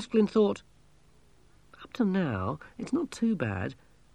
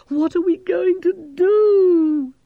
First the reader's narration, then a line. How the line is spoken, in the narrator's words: Gerda moaned